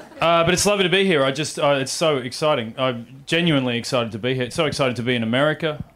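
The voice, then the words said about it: Australian accent. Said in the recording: “Oh, I'm from Australia... I should explain my accent. This is how we speak”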